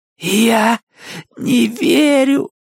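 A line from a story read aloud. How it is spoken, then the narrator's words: Hoarse. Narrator (Russian): прохрипела Джесси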